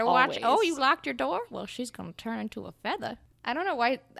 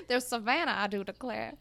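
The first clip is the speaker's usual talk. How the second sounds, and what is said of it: Put-on slow Southern Savannah accent. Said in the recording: “The Savannah accent. It's just molasses filling out of your mouth.”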